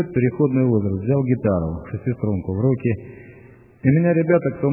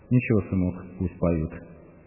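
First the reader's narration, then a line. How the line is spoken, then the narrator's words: Calm. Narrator (Russian): спокойно сказала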